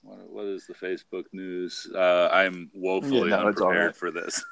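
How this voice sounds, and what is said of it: Usual voice. Nothing is said of it.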